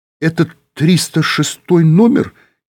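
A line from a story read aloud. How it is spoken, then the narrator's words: Uncertain question. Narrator (Russian): неуверенно спросил Юра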